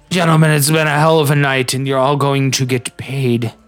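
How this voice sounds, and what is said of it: Drunk character, slipping accent. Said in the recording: “I'm still so drunk I can't keep my accent straight.”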